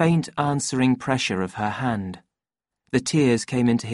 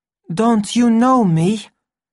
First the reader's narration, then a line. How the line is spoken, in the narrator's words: the savage spoke anxiously